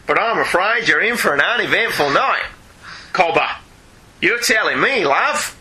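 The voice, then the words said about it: Campy put-on Australian accent. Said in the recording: “gloriously camp, as is ... Australian accent.”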